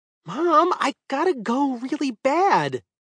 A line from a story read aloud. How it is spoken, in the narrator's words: Jason whined